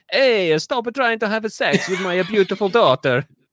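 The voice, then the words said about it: Exaggerated heavy Italian accent. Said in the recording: “heavy Italian accent”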